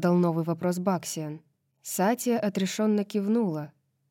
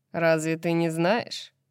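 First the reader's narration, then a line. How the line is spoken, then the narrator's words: Surprised, lazily smiling. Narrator (Russian): удивился он, лениво улыбнувшись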